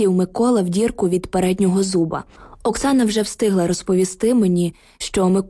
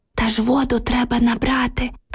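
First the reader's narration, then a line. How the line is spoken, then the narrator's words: Whispered reply. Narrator (Ukrainian): прошепотіла Оксана у відповідь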